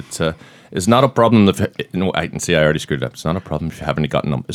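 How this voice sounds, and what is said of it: Put-on Scottish accent. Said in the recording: “I can say one thing good with a Scottish accent.”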